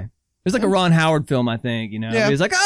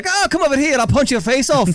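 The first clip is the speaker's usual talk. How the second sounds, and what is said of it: Exaggerated bad Irish accent. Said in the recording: “a very bad Irish accent”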